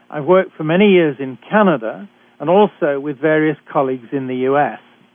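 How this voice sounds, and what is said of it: British accent. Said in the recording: “I'm a physician trained in Britain, as I'm sure you can tell from my accent.”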